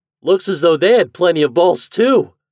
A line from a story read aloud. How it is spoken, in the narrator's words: exclaimed Toad